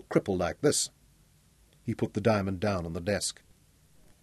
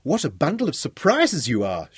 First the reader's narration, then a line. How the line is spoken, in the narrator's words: she exclaimed